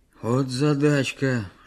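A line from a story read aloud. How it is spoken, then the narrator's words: Joking sigh, old man. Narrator (Russian): шутливо вздохнул дед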